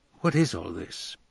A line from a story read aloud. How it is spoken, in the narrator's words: whispered Tommy to Nicole